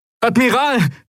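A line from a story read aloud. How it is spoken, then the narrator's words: Familiar voice calling. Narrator (German): rief eine vertraute Stimme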